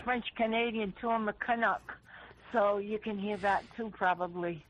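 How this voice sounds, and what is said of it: New England accent. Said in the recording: “a really good New England accent”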